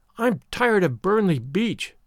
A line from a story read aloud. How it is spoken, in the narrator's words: Avery went on passionately